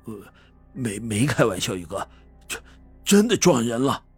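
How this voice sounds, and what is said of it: Trembling, stammering frightened voice. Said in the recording (Chinese): “用颤抖的声音说道”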